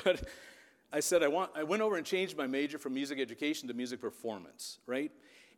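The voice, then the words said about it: Emotional voice. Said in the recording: “getting emotional”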